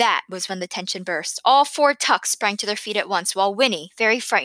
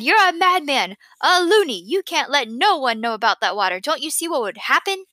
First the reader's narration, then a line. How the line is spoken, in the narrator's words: Tuck cried